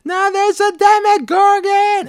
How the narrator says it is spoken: she's this woman screaming, screaming like

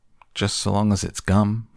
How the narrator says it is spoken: shouted Violet Beauregard

